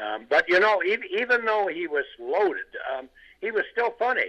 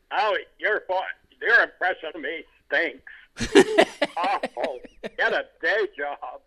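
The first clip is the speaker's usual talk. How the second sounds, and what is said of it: Imitates another person's voice. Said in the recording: “he never liked my impression”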